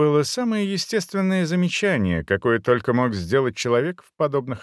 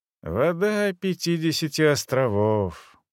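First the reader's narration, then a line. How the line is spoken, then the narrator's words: Weary exhale. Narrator (Russian): устало выдохнул Дефаго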